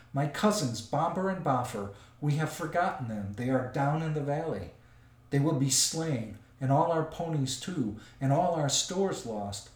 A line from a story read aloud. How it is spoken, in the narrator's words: moaned the others